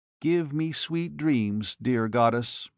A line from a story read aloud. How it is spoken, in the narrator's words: he murmured